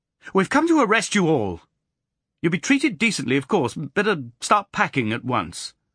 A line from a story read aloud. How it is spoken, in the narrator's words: blurted out in a most unofficial manner